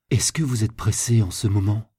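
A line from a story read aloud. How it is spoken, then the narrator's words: Plain question. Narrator (French): demanda Jacques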